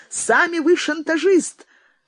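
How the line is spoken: Angry outburst. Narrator (Russian): выкрикнул цензор

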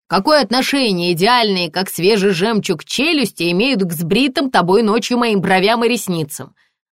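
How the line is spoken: Yelling again, colonel. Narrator (Russian): опять заорал полковник

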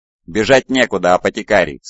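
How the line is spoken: Plain. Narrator (Russian): сказал Кассандр

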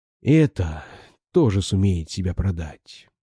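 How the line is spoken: Whisper through clenched teeth. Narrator (Russian): прошептал он, судорожно стиснув зубы

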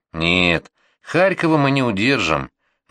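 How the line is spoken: Muffled voice, young officer. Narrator (Russian): глухо сказал подсевший ко мне в сани подпоручик Морозов

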